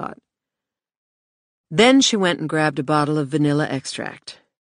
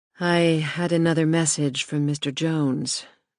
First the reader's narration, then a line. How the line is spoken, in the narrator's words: Michelle said softly